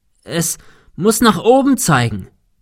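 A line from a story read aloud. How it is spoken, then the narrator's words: Shouting into wind. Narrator (German): rief Thomas dem Wind entgegen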